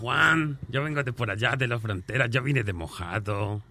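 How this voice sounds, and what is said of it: Put-on Mexican Spanish accent. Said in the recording (Spanish): “el, mexicano ... me fascina ese acento”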